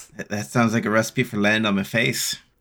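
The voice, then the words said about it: Momentary put-on Irish accent. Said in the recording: “I don't know which accent that was. I think I went Irish there for a second.”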